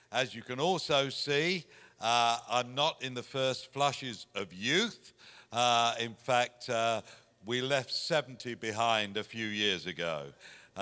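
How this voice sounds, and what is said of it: English accent. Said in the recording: “You can hear from my accent that I'm from the other side of the pond. There's a little country there called England, and that's where I was born”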